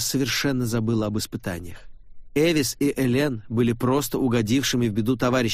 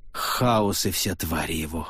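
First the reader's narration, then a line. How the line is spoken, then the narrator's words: Breathless exhale. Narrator (Russian): выдохнула Клара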